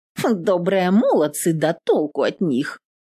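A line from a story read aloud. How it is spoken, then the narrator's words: Snort. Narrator (Russian): Фыркнула Нютка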